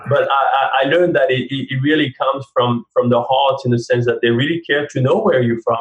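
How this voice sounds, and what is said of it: French accent in English. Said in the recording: “you talk about my accent ... I pride myself in not sounding too French, but obviously I do sound French. ... it will always be there”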